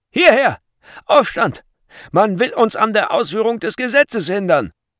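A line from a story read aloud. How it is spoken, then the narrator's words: Guards shouting loudly. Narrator (German): die Wächter … schrien sie laut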